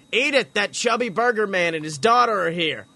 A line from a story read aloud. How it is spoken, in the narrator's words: Harold yelled out to his wife in the back room of the building